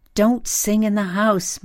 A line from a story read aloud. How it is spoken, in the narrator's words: my mother's voice yelling